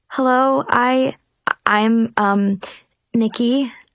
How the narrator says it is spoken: I stammered

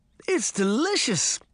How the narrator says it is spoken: she exclaimed with a mouthful of food

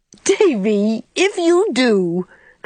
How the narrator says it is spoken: cried Anne, realizing her mistake

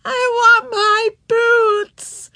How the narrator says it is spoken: she howled

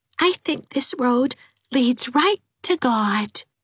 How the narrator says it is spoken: she said dreamily

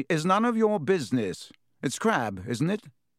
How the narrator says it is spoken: said stiffly

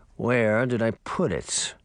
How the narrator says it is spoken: He mumbled to himself

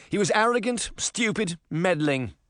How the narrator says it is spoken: Scrooge cried

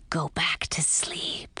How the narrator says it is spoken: whispered Fang

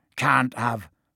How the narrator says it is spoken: Hagrid said, his voice shaking

